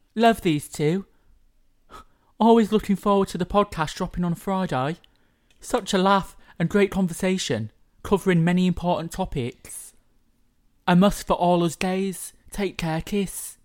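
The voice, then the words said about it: Put-on posh London accent. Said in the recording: “London, but posh London ... That wasn't a bad accent challenge.”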